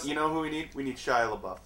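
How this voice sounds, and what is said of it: Sarcastic shouted suggestion. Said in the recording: “shouting out sarcastic things”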